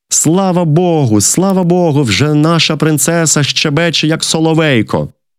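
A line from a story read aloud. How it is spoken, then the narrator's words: Loud group shout. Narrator (Ukrainian): Слуги, що стояли під дверима, закричали на весь палац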